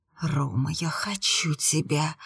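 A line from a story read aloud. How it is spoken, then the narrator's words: Hissed reply. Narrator (Russian): прошипела я в ответ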